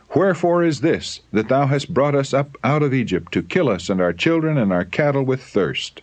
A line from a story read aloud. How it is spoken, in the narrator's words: They cried in anger